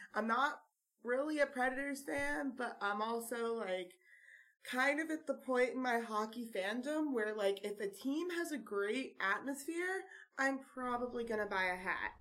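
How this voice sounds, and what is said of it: Hoarse, partly lost voice. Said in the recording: “My voice is a little bit gone. There was a lot of screaming”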